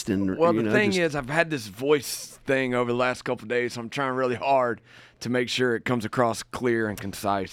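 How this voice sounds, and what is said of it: Slightly scratchy voice. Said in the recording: “I got a little bit of scratch in it, so we'll try to make it through without sounding weird.”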